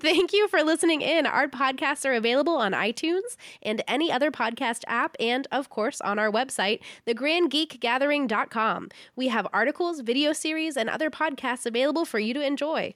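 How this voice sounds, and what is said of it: Fancy radio announcer voice. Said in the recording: “our fancy outro ... here comes my radio voice.”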